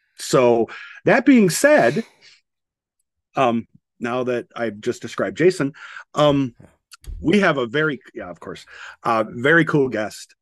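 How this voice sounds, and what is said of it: Slightly gravelly, rough voice. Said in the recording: “had the flu shot and I'm a little gravelly gurdy, so it would come across more like a heavy breathing, creepy guy on the phone”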